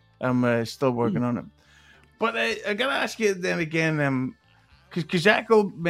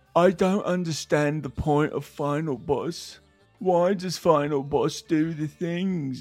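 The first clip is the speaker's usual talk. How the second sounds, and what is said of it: Imitates another person's voice. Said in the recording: “my stealth chaos impression”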